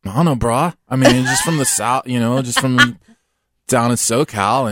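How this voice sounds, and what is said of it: Bad Californian surfer accent. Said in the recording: “your Californian accent? ... like that surfer accent ... Wow, that was terrible. They don't sound anything like that.”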